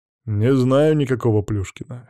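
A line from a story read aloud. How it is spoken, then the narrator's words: Wry snort. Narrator (Russian): хмыкнул Макс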